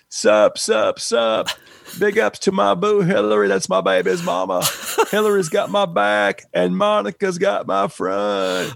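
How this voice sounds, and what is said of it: Imitates another person's voice. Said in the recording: “my Bill Clinton impression”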